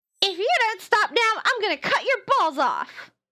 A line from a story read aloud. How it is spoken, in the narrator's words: yells the other